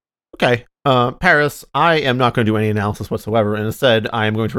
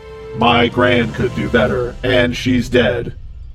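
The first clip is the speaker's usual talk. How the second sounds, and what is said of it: Robotic voice. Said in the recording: “in a robot voice.”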